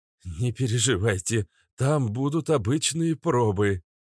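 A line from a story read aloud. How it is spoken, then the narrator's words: Hoarse voice. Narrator (Russian): севшим голосом ответил Своркин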